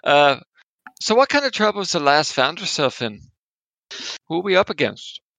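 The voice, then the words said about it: Put-on accent. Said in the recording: “For this scene, I have an accent now. I'm going to try out.”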